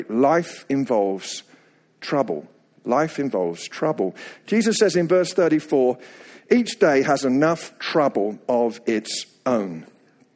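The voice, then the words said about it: Slight English accent. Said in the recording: “you can probably hear the slightest tinge of an accent... I go back to England about every 8 weeks for ministry purposes and also to get my accent refurbished”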